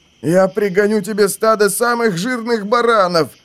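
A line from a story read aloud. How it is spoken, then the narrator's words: Wolf's whine. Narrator (Russian): заскулил волк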